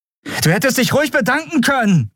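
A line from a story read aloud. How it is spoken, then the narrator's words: Called out. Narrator (German): rief sie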